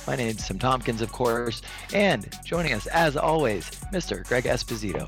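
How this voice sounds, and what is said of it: Hoarse, nearly lost voice. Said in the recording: “As you can probably tell already, I've lost my voice”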